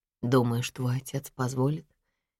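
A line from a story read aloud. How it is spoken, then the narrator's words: Uncertain question. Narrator (Russian): неуверенно спрашиваю я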